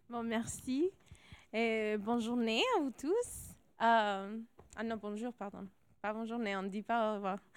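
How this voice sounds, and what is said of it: American Latino accent speaking French. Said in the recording (French): “c'est pour ça mon accent américain, latino aussi à la base”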